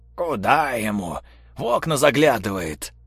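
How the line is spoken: Sleepy mutter, cripple. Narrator (Russian): Пробормотал, засыпая по новой калека

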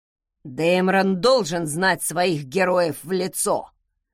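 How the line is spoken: Creaky voice. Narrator (Russian): проскрипел он

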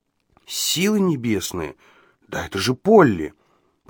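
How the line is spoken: Muttered. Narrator (Russian): пробормотал Ладлоу

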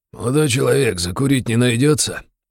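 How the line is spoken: Husky male voice. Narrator (Russian): произнес хрипловатый мужской голос

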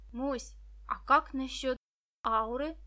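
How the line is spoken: Plain. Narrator (Russian): спросила Виктоша

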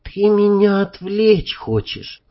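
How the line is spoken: Sighing. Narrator (Russian): вздохнула она

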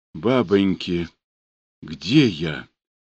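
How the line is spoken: Exhausted whisper. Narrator (Russian): прошептала обессиленно

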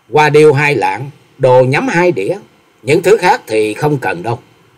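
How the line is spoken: Smiling. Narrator (Vietnamese): Bạch y thiếu nữ mỉm cười nói

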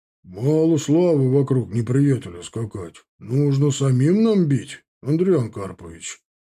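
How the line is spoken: Deep-voiced senior commander. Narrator (Russian): пробасил самый взрослый из командиров

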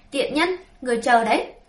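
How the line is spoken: Furious loud scream. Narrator (Vietnamese): Sắc mặt nó khi xanh khi tái, nó cáu giận hét ầm lên

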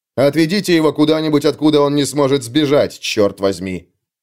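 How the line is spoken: Barking. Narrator (Russian): рявкнул он Юранду

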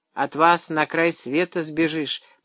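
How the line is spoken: Grumbling. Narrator (Russian): проворчал Андрей Иванович

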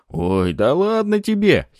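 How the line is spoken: Giggle. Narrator (Russian): хихикнула Пафи

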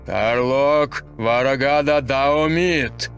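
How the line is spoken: Loud shout. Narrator (Russian): громко крикнул он

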